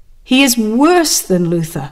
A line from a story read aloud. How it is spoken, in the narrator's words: cried the papists